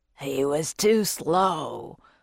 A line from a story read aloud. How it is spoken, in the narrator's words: a growly voice said